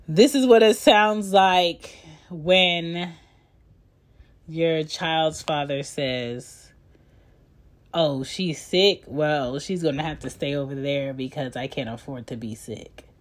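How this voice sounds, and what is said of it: Congested, stuffy-nosed voice. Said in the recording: “I sound congested”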